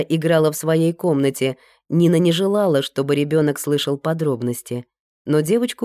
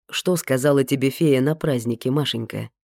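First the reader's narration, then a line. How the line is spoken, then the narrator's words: Plain. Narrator (Russian): спросил детектив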